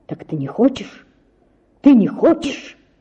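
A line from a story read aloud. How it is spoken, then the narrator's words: Frenzied whisper. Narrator (Russian): шептал в каком-то исступлении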